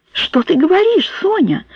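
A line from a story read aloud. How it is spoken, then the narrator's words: Surprised exclamation. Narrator (Russian): С удивлением воскликнула Вирджиния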